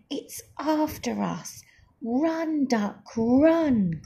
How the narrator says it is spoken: cried Goose

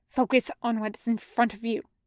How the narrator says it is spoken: he hisses at himself

